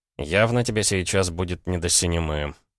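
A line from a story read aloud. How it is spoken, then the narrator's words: Gloomy, to himself. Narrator (Russian): мрачно добавил он про себя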